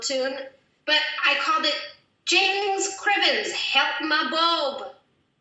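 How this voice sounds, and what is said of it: Bad put-on Scottish accent. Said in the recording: “the worst Scottish accent I've ever heard in my life”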